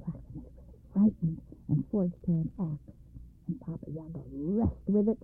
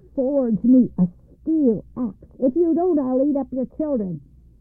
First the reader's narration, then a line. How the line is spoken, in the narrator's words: cried she